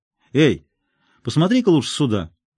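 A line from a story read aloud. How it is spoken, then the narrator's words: Shouting. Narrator (Russian): крикнул Эванс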